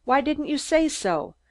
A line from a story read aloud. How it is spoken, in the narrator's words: asked sharply